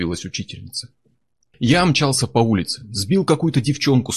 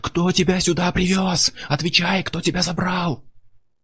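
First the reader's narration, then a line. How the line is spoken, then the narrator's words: Yelling. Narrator (Russian): Я ... орал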